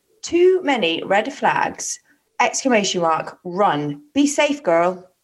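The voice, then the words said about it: Put-on American accent. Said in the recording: “I don't know why I did that in an American accent.”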